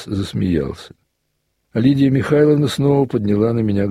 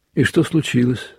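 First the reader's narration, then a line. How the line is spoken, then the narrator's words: Plain. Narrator (Russian): спросила она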